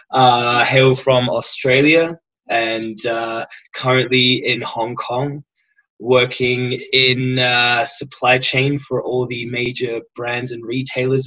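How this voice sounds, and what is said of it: Mild English-tinged Australian accent. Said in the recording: “this is not actually how thick my accent is. I have a somewhat English affected Australian accent”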